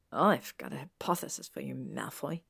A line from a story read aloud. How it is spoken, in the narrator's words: Millicent muttered